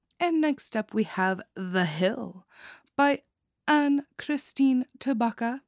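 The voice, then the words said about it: Put-on accent. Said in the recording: “I don't know why I'm introducing everybody with an accent.”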